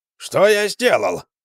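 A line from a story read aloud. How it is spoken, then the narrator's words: Exclaimed. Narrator (Russian): воскликнул Акимас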